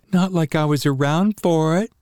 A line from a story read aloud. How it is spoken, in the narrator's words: Jessica giggled